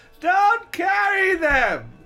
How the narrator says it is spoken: He grunted, finally, sounding annoyed by the interruption

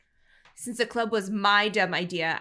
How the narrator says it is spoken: I snapped

